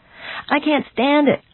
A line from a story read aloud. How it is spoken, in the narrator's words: I cried